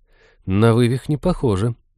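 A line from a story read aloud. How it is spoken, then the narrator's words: Uncertain. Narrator (Russian): неуверенно заключила она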